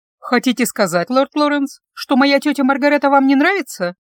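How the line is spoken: Snide question. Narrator (Russian): ехидно спросила я

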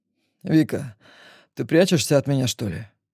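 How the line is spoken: Calm question, dangerous undertone. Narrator (Russian): Демид спрашивает спокойно, но я улавливаю опасные нотки в его голосе

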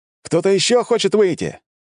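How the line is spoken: Shouted to crowd. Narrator (Russian): крикнул я собравшимся на стенах

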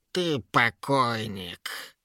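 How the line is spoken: Angry nasal troll woman. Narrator (Russian): зло прогнусавила тролиха

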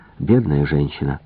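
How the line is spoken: Muttered under breath. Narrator (Russian): пробормотал себе под нос

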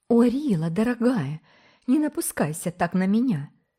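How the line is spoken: Pleading. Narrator (Russian): взмолилась Ирен

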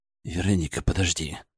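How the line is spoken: Muttering. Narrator (Russian): пробормотал я

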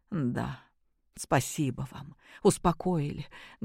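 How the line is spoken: Sad wry chuckle. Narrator (Russian): грустно усмехнулась женщина

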